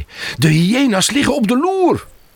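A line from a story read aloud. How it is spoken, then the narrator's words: Calling out. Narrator (Dutch): roept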